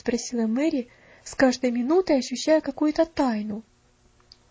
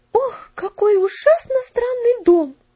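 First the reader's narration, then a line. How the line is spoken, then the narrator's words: Exclamation. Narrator (Russian): воскликнула Мэри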